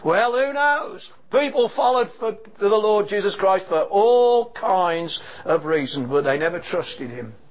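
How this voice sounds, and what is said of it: Distinctive appealing accent. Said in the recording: “I love your accent ... I could listen to you all day ... She just loves my accent”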